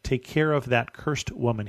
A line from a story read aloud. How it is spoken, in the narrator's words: he said